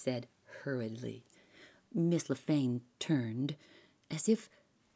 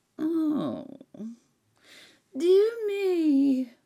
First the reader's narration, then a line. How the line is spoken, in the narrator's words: wailed the old lady